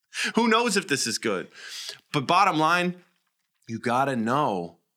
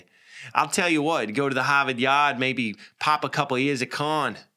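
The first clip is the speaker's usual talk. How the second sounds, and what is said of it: Put-on Boston accent. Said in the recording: “let's say you're from Boston ... I don't know if that's how they talk”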